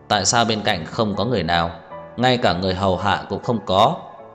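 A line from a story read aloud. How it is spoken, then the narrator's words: Cold question. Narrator (Vietnamese): Tưởng Vĩ Quốc lạnh lùng hỏi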